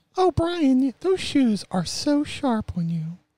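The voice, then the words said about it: Imitates his mother's voice. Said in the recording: “That was my mom's voice”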